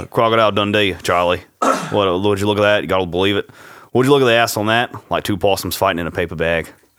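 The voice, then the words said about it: Put-on Australian accent. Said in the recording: “it's so much better with your Australian accent ... I got to get in the Australian voice ... Crocodile Dundee”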